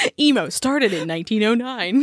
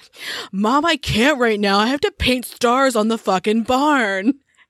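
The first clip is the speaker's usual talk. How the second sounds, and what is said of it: Moody emo teenage boy voice. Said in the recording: “my moody 1900s teenager emo boy voice? That's a good accent.”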